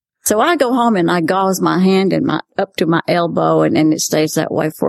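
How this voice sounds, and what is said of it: Usual voice. Nothing is said of it.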